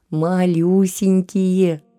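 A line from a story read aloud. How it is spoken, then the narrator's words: Slow, smiling. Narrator (Russian): с улыбкой медленно произнесла Ольга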